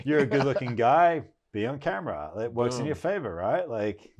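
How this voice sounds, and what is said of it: Australian accent. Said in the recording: “I got an Australian accent”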